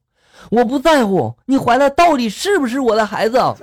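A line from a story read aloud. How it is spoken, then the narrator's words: Roaring. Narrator (Chinese): 我冲着女的大吼了一声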